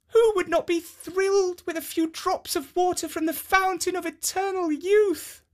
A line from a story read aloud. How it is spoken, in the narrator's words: she exclaimed